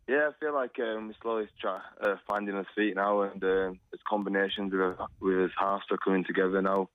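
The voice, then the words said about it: Strong non-Australian accent. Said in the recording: “Another one of those big accents”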